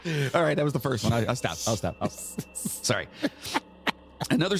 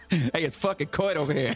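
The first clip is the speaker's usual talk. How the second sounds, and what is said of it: Put-on New Jersey accent. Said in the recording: “they just said it in a Jersey accent.”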